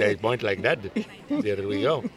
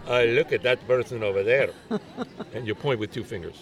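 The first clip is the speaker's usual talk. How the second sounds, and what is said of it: Generic put-on foreign accent. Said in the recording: “Was that your Indian accent? ... No. That's my general foreign accent.”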